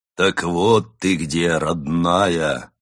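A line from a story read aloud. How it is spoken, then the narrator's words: Bear's deep bass voice. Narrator (Russian): произнес медведь глубоким басом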